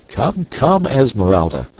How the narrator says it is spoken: cried Clayton

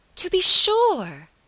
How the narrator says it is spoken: cried Miss Audley, with a vehemence that startled her cousin

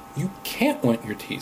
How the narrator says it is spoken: said Robert

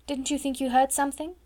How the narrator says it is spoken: asked Sarah

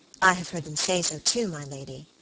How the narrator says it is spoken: said the girl quietly

